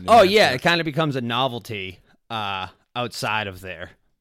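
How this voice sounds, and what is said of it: Boston accent. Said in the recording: “your accent does better in Rhode Island ... other guys that have the same accent ... I don't want to be the Boston guy”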